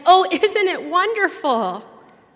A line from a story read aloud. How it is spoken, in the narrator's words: lost all inhibition and shouted